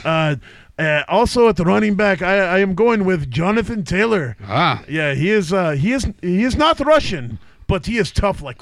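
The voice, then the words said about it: Exaggerated fake Russian accent. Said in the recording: “I don't know if this is still Russian... it's maybe some other accent now... I am sounding like the goat from the Adam Sandler skit”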